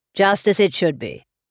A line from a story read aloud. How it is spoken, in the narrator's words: said Mr